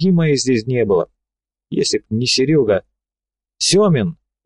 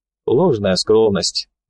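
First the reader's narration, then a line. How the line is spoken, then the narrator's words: Bearded man sighing. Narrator (Russian): бородач вздохнул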